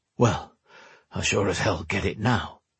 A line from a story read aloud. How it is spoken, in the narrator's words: he muttered